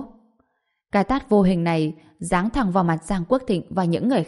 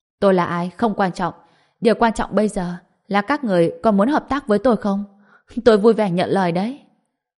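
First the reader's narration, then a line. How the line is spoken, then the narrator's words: Loud laughing reply. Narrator (Vietnamese): Trần Bình cười to, trả lời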